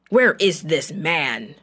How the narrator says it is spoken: the king of Aram roared

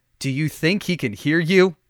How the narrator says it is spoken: the traveler laughed

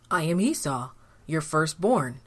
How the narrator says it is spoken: replied Esau

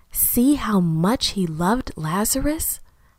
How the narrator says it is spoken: Someone whispered

